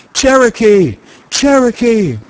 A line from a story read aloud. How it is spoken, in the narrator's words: Shouts of applause went up for the victor, and there were many cries of